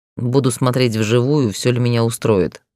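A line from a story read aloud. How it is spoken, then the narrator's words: Snorting. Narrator (Russian): хмыкнул Гроу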